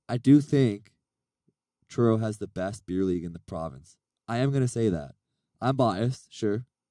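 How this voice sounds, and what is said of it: Raspy voice. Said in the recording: “I was hoping not to do this with my raspy voice.”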